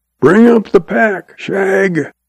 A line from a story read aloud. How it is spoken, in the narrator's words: when Red gets too far behind, he hollers